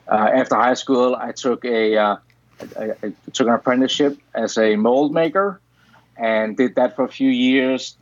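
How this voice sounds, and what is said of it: Danish accent. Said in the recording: “I'm originally from Denmark. That's where the weird accent”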